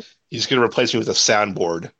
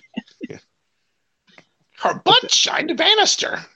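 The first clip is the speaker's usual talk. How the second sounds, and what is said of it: Imitates a cartoon mom's voice. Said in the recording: “your Marge impersonation?”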